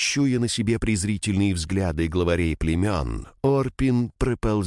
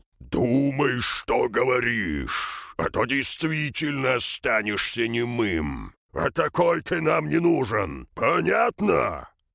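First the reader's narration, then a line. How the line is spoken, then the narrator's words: Angry roar. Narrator (Russian): Крон злостно проревел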